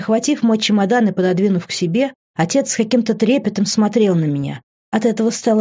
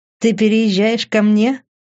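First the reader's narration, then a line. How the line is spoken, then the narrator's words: Chuckling. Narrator (Russian): хохотнул он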